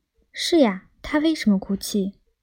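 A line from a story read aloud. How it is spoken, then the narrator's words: Low, questioning whisper. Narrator (Chinese): 金盏花也向他的邻居低声探问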